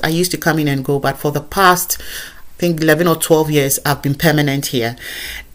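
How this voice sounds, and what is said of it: Ghanaian African accent. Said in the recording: “I sound just as I sound as a Ghanaian from where I come from ... they hear an african accent”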